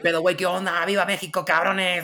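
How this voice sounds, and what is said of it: Exaggerated put-on Mexican accent. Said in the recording (Spanish): “me sale un acento mexicano a tope”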